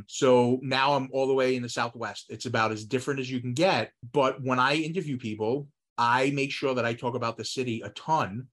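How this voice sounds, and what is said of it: Northeastern US New York accent. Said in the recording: “You can tell from my accent, I grew up in the Northeast. I grew up in New York”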